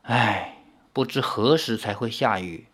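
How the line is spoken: Wistful murmur. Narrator (Chinese): 阿奴不禁仰头望了蓝透了的天，喃喃地说

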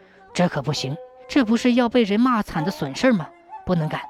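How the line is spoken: Hurried earnest. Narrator (Chinese): 单家人心向善，急忙说道

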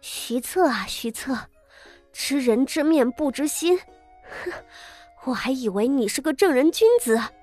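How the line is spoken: Breathless. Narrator (Chinese): 傅锦衣气喘吁吁的道

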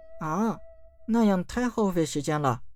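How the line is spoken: Glum sighing. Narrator (Chinese): 小公主愁眉苦脸了起来，叹道

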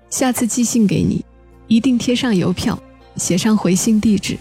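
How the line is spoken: Laughing. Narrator (Chinese): 他笑着说

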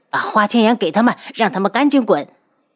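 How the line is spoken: Angry snort. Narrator (Chinese): 他怒哼一声

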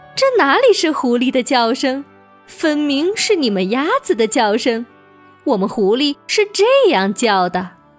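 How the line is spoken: Laughing. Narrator (Chinese): 狐狸笑道

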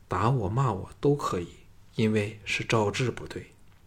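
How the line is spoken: Sorrowful. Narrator (Chinese): 凄然地看着他说

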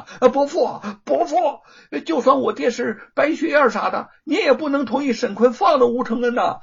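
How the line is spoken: Urgent, frantic shouting. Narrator (Chinese): 罗庞情急大嚷

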